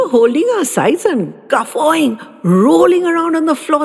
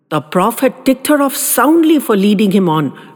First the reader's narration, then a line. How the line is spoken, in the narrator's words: Rad said